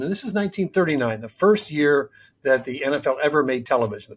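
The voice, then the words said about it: Reading aloud very fast. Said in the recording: “I'm going to read it fast because it's not a short letter”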